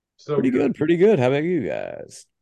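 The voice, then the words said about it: Old-time radio announcer voice. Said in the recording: “What was that voice? ... you played it like 1940s radio announcer cool”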